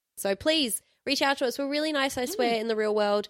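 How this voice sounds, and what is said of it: Sick, congested snuffly voice. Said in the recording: “I'm a bit sick this week, so that's why my voice is like this ... I'm a little bit snuffly today”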